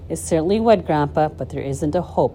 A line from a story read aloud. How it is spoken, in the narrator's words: Charlie said sadly